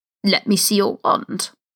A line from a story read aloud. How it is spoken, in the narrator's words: it croaked, tilting its head arrogantly